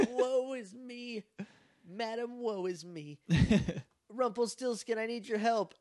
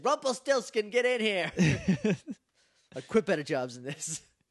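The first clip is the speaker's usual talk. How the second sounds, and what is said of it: Imitates a movie character's voice. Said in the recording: “This is not angry mom voice. This is Janine Melnitz... From Ghostbusters”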